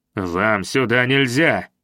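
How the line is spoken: Sharply snapped. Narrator (Russian): резко бросил я

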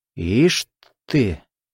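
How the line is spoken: Man's scoffing grunt. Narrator (Russian): мужчина хмыкнул

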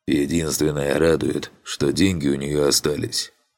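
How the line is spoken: Sigh. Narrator (Russian): вздохнул Фантик

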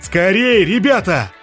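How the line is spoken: Shouted. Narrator (Russian): закричал Блай

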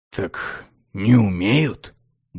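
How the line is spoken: Grumbled. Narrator (Russian): буркнул Ароэн

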